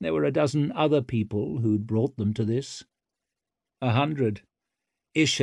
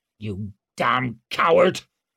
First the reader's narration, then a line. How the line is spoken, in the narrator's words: snarled Mustard from the far end of the line